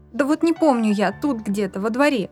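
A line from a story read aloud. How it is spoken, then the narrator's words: Irritated girl. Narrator (Russian): раздраженно ответила девочка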